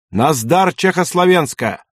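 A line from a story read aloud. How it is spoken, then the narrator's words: Soldier shouting. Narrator (Russian): вдруг солдат, еще раз рванув связанными руками, крикнул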